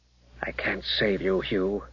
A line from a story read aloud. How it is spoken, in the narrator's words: Gareth mumbled